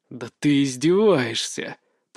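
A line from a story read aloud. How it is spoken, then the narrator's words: Groaning. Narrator (Russian): простонал я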